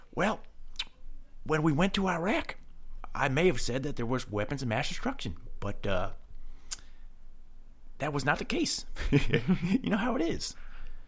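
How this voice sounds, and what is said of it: Raspy imitated presidential voice. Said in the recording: “he's got a different voice ... His is a little bit more like raspy.”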